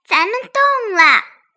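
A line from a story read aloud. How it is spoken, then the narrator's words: Loud. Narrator (Chinese): 蜘蛛小姐高声说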